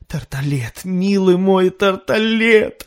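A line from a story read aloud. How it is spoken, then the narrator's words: Shout. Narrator (Russian): закричал Готфри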